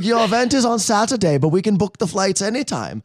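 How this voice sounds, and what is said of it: Put-on European accent. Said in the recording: “That's not an Austrian accent ... I don't know why I'm butchering this accent for them. ... No, you're actually doing a great really? Job. I'm impressed.”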